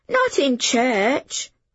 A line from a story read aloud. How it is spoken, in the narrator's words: Hob exclaimed